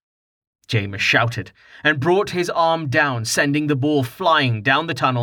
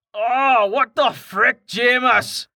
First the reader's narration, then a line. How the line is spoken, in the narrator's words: Karten shouted